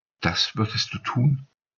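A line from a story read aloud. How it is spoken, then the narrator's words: Trembling voice. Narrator (German): fragte sie mit bebender Stimme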